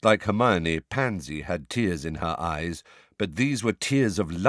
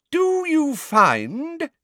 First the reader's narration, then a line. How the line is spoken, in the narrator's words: said Professor Umbridge in a ringing voice to Pansy Parkinson